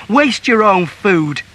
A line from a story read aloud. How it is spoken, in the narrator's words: he cried